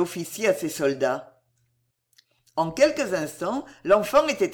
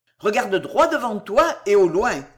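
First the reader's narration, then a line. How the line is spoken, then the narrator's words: Officer shouting. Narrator (French): cria l'officier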